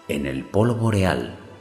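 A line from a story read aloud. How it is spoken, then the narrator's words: Plain, Death answering. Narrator (Spanish): respondió la muerte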